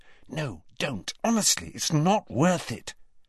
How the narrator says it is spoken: Hermione, who was standing slightly behind them, whispered

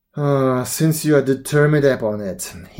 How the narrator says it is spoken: he answered with a sigh

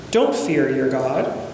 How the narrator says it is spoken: he said

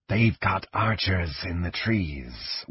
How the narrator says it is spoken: whispered one of the draconians

